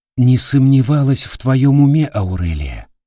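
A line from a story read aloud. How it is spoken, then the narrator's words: Soft. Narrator (Russian): мягко повторила комплимент Кира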